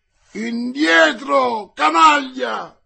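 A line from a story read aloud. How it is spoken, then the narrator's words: Yelled. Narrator (Italian): urlò il guascone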